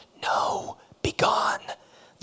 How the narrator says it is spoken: the prompter whispered from the wings

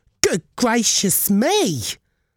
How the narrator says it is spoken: she exclaimed

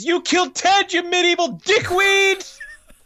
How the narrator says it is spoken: he screams

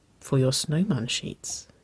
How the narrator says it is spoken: Nicole whispered

